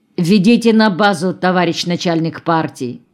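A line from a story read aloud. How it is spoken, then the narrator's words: Stern. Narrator (Russian): Майор строго сказал Жоре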